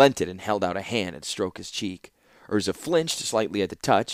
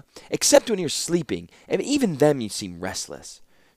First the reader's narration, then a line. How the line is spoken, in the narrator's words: snapped Kayla